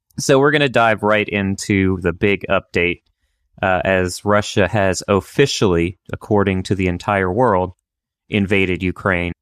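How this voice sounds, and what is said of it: Voice affected by a cold. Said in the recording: “apologize for my voice because I'm dealing with a little bit of a cold”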